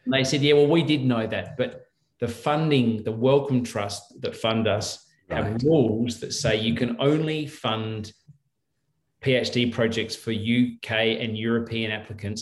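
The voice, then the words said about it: Australian accent. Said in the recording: “you're Australian ... that should have been obvious from my accent”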